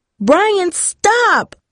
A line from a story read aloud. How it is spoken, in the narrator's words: Darcy cried as sharp pains began ripping into her arms like stabbing knives